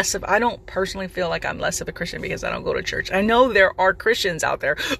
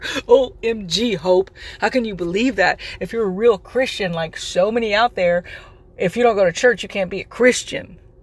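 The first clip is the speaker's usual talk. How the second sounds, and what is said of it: Sarcastic mocking delivery. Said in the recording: “Yes, that is sarcasm, guys. ... I'm being sarcastic”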